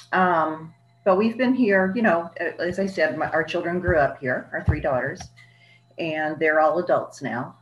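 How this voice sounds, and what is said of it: Slight Southern US accent. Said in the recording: “I actually grew up in North Carolina and Virginia. So if you hear a little accent, that's why.”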